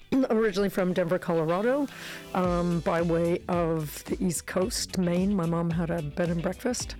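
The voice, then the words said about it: Warm, rich American accent. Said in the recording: “the nice chocolate tones of the American accent”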